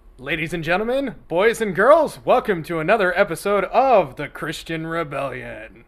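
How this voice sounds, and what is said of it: Circus ringmaster announcer voice. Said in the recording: “you sounded like a circus guy there”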